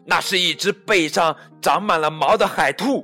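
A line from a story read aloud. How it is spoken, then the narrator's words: Calling out. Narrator (Chinese): 另一个叫道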